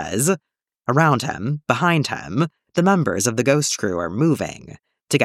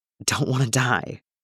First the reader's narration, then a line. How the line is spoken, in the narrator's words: Callus whispers